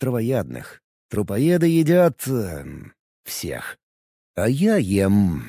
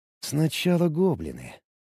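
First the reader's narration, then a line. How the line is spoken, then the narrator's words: Mumbling. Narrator (Russian): пробормотал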